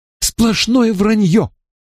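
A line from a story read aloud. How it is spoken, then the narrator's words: Indignant exclamation. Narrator (Russian): негодующе воскликнула мисс Джеймс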